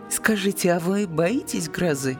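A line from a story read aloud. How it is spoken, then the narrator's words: Laughing. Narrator (Russian): Она рассмеялась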